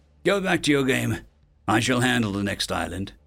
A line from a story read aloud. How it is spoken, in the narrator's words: New said gravely